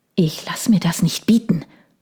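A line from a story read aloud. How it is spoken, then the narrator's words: Hissed. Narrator (German): zischte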